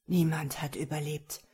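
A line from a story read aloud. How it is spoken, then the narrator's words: Trembling voice. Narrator (German): sprach Veosvar die grausame Wahrheit mit zittriger Stimme aus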